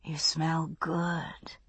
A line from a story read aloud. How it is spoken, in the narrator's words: she whispered